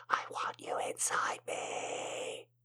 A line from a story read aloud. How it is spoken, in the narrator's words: she whispered